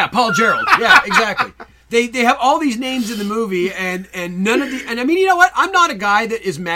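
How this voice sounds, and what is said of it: Usual voice. Nothing is said of it.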